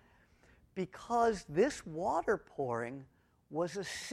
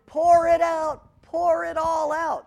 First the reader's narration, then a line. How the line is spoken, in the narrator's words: the people would be shouting